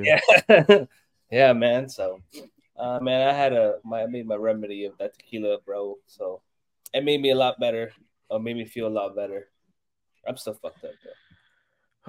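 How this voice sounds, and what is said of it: Sounds ill, unwell voice. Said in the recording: “I'm not feeling 100, unfortunately ... I can hear it in your voice, too.”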